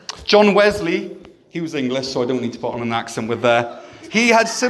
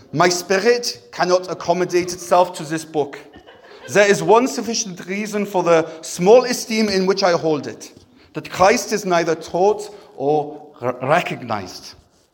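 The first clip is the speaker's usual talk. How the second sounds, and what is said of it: Put-on German accent. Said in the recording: “he was German. Let's do a German accent.”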